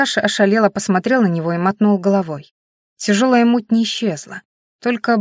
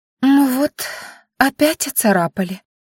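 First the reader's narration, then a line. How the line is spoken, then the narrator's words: Upset, drawn-out. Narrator (Russian): расстроенно протянула Маяри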